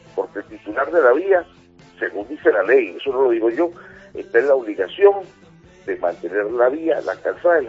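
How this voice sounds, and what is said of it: Venezuelan Spanish accent. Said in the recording (Spanish): “compostelano con acento venezolano”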